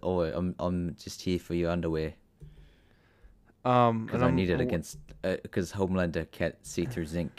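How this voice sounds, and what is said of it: Poor put-on character accent. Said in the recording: “my accent's gotten more awful”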